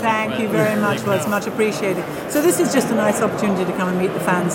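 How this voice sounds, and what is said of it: English accent. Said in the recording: “I have an English accent.”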